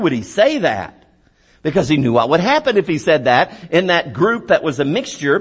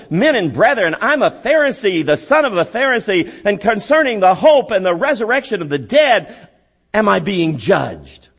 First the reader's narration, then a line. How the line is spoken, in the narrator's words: he cried out in the council